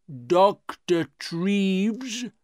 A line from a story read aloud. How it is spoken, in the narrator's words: he said slowly